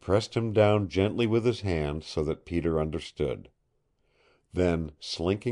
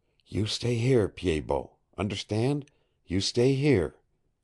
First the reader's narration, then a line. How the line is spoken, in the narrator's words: Jolly Roger knelt down beside Peter again and whispered to him